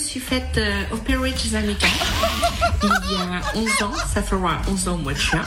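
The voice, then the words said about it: French speaker with English-sounding accent. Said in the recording (French): “faire 11 ans l'accent anglais... a toujours un accent anglais alors qu'elle est française”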